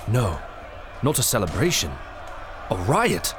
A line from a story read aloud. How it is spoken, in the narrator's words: exclaimed Mr